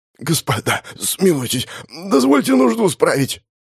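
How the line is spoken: Hoarse, parched prisoner. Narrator (Russian): прохрипел пересохшим горлом пленник

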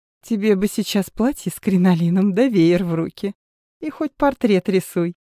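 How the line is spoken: Girl laughing. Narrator (Russian): засмеялась девушка

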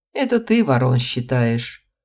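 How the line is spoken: Laughed. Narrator (Russian): рассмеялся его друг

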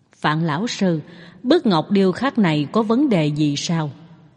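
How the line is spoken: Quiet question. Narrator (Vietnamese): nhỏ giọng hỏi

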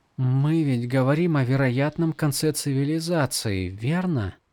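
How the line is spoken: Quiet question. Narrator (Russian): Тихо спросила Шалан

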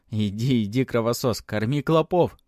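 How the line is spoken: Laughing. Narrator (Russian): рассмеялся Матвей

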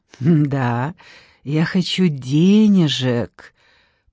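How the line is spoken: Purring woman. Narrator (Russian): промурлыкала блондинка

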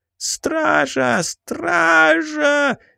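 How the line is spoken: Terrified shriek. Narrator (Russian): завизжал пешек

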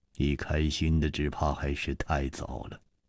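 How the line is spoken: Sighing. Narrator (Chinese): 楚留香叹了一口气

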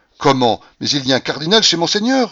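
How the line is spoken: Horrified exclamation. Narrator (French): s'écria le petit abbé en frémissant d'horreur

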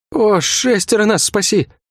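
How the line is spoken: Guard groaning. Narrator (Russian): Не сказал, а простонал гвардеец

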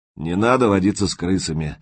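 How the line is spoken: Gloomy, preachy. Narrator (Russian): мрачно и назидательно сказал Прохор

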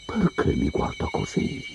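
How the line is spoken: Whispered question. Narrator (Italian): chiese a Loki in un sussurro

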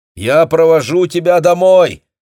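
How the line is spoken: Shout. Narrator (Russian): прокричал Йорген

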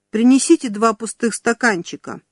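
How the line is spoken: Commanding lady. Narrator (Russian): командным тоном завела дама

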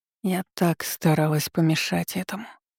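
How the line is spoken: Barely audible confession. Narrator (Russian): еле слышно созналась Вещунья

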